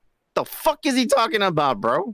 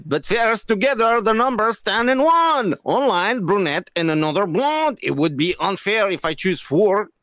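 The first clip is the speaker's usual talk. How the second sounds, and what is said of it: Put-on foreign accent. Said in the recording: “that was a good accent”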